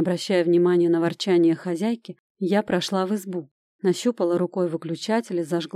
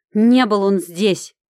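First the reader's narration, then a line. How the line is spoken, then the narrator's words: Angry reply. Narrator (Russian): Зло ответила та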